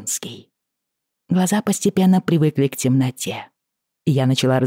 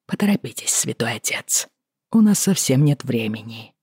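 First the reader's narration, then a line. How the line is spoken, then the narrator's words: Mutter. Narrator (Russian): пробормотав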